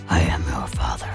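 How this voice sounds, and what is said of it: Darth Vader voice impression. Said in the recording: “That's a good impression there, sir.”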